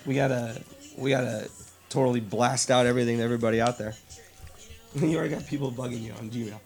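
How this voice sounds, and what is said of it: Throaty, rough-sounding voice. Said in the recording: “apologize for my voice. ... I'm gonna sound like this the whole entire time. It sounds terrible. ... Oh man, throaty.”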